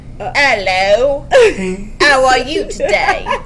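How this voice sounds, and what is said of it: Strong put-on British accent. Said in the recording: “really strong British ... That's a really great accent.”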